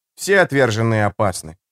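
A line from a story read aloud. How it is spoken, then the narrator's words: Calm unruffled tone. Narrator (Russian): ответил Лето невозмутимым тоном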